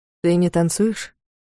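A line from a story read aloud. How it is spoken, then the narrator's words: Quiet question. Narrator (Russian): спросил тихо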